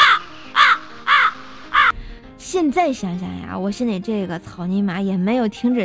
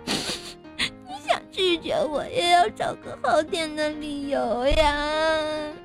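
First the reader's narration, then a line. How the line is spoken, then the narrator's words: Speaking through tears. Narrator (Chinese): 开始哭，一边哭还一边说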